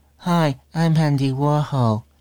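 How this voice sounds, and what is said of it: Imitates another person's voice. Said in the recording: “That's my Andy Warhol impression.”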